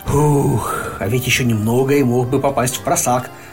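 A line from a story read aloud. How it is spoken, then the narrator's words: Sighing. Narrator (Russian): вздохнул Винни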